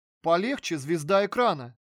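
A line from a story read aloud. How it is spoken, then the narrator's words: Laughing. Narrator (Russian): рассмеялся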